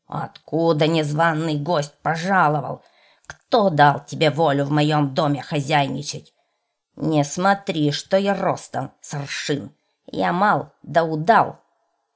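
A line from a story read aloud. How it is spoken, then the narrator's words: Menacing angry shout. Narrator (Russian): Увидал он в избе чужого, да как закричал грозным голосом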